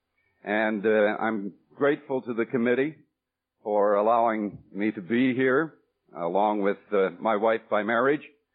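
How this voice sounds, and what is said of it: Canadian accent. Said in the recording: “As far as all of you are concerned, I talk funny. I talk Canadian.”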